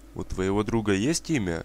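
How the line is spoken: Plain question. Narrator (Russian): спросила я

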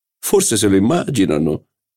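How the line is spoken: Laughing. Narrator (Italian): disse ridendo il signor di Cambremer

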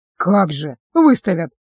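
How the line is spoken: Skeptical snort. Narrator (Russian): хмыкнул Остион

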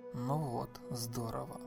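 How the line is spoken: Growled under breath. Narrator (Russian): прорычал себе под нос Джонатан

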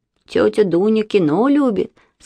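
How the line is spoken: Said, then laughed. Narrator (Russian): сказал Вася и засмеялся

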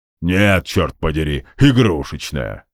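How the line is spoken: Displeased grumbling. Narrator (Russian): недовольно проворчал Игв

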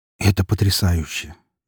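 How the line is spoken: Quiet breathy exclamation. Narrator (Russian): негромко выдохнул я

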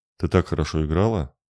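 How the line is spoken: Soft voice. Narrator (Russian): негромко произнес он

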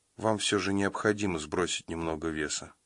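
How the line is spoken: Sigh, woman. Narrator (Russian): вздохнула она

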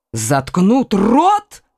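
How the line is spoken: Exclaimed. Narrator (Russian): воскликнул Коконас

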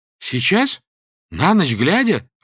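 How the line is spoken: Frightened exclamation. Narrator (Russian): воскликнул он испуганно

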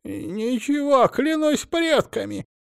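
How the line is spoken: Frightened babbling. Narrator (Russian): испуганно пролепетал

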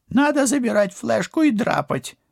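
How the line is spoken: Whining. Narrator (Russian): заскулил жулик

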